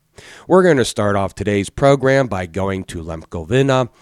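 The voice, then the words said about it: Froggy, sick-sounding voice. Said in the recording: “No wonder why I'm sick. So if my voice sounds a little froggy”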